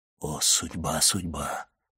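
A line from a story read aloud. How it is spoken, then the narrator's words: Whisper, abbot. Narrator (Russian): прошептал аббат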